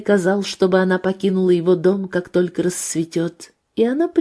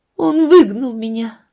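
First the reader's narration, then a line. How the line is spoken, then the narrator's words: Sobbing. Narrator (Russian): ответила она, рыдая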